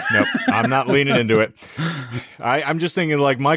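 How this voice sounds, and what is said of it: Usual voice. Nothing is said of it.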